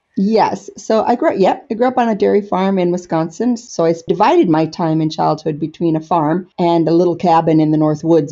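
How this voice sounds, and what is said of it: American accent, not Scottish. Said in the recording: “that, of course, to the eagle ear is not a Wigtownshire accent”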